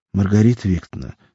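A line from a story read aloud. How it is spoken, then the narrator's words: Calm. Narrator (Russian): сказала она спокойно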